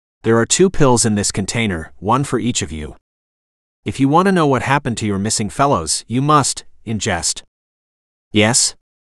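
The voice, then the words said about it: Northern European accent, robotic rhythm. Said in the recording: “He spoke in a Northern European accent, with an almost robotic rhythm and tone.”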